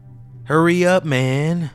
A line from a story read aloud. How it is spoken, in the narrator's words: a slurred SoCal voice said from across the table